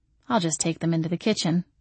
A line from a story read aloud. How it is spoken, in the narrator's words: muttered